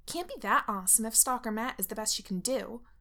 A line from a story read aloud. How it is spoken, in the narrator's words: Lydia snaps